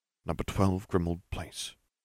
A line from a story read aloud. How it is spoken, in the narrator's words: he whispered